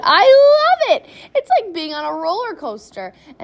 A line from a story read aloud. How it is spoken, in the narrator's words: Charlie shouted